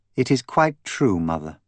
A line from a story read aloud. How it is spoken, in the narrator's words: Daisy replied evenly